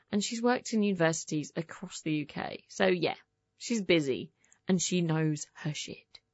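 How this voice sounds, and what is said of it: English Essex accent. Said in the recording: “catch on to my accent ... You English? ... I'm English, yeah. ... I'm from Essex.”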